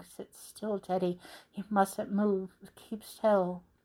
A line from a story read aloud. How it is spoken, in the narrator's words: his father's whispering